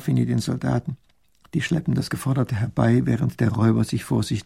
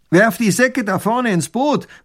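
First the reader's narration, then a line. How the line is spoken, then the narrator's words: Robber calling out. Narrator (German): ruft der Räuber tunlich gut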